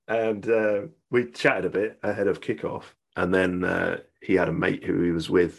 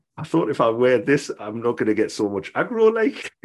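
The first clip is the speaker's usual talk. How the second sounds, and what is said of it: Imitated Geordie accent. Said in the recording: “my impression of the accent... I'm actually a Geordie man”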